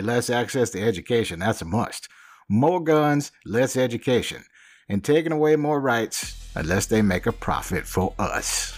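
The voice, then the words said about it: Put-on American Southern accent. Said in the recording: “my Southern accent”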